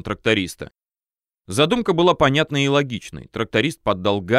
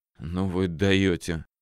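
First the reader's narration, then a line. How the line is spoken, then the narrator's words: Relieved exhale. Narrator (Russian): с облегчением выдохнул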